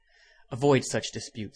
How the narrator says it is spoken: said Coffin

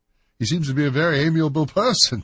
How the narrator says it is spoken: said Holmes, laughing

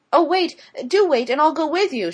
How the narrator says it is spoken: she called out to Mrs

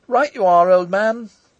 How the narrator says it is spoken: Sidney shouted

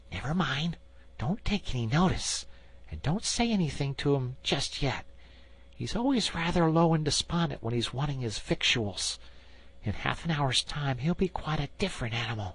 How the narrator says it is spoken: the Rat whispered to him

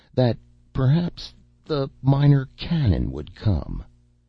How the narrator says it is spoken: said one of the laborers, his voice shaking so that his words could hardly be understood

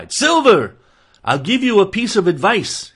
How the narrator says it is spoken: he cried

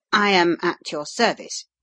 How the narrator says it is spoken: he answered a little stiffly

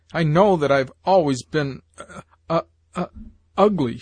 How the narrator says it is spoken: she sobbed

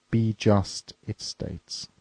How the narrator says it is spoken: he said

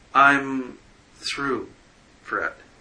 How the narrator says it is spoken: she said slowly

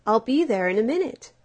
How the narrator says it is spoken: shouted the mole

